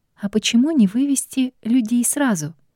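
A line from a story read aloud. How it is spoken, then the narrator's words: Timid hesitant question. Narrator (Russian): робко заикнулась я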